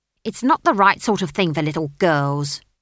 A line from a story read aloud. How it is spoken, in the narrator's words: snapped the barman's wife